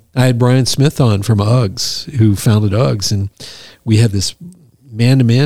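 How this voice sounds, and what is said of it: Usual voice. Nothing is said of it.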